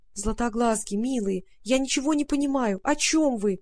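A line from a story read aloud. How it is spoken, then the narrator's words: Pleading. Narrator (Russian): взмолилась Варя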